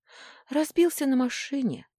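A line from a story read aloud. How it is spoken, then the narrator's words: Sighing. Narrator (Russian): вздохнула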